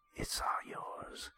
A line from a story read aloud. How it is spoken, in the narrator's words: she's whispering